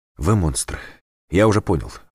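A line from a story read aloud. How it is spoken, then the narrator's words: Prisoner breathing out. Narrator (Russian): выдохнул пленник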